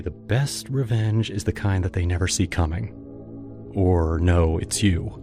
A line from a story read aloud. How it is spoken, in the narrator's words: Laura whispered to me